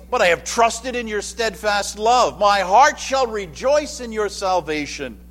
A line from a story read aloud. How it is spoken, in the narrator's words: He exclaims